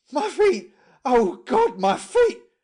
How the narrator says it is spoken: kept up a continual moaning

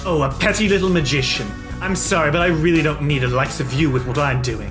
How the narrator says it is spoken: snarls and says

